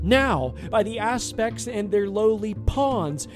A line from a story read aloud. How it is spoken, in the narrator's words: he roared with glee